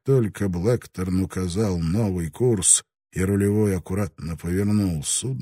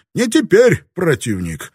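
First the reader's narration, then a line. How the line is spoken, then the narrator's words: Laughing. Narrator (Russian): Родригес засмеялся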